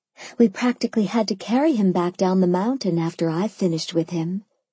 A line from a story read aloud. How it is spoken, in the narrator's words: I replied just as sweetly